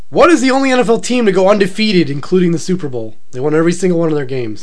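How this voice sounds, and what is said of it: Deep, nasal, congested voice. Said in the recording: “It's deep, but it's nasally. You can tell it's a cold because it's nasally deep. Like, that's what my voice is right now. Nasally deep.”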